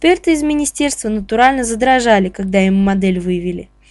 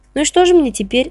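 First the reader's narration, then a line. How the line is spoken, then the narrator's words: Dejected question. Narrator (Russian): спросил уныло Павлов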